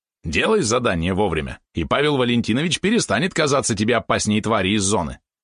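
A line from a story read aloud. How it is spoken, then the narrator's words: Snide yapping. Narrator (Russian): ехидно тявкнул Валерон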